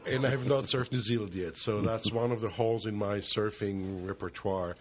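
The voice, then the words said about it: Israeli accent. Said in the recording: “their accent, which is way nicer than an Israeli accent.”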